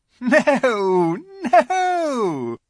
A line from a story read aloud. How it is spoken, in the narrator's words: said the Queen with a laugh